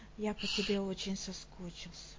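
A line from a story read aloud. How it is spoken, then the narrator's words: Muttered. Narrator (Russian): пробормотал Дерек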